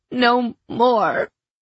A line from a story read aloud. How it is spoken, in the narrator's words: I pleaded hoarsely, my limbs trembling hard